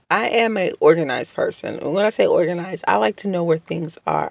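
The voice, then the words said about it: Strained voice, cutting in and out. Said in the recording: “I am a little under the weather and my voice has been going in and out. It's kind of a strain to talk at certain points ... if my voice sounds a little funny”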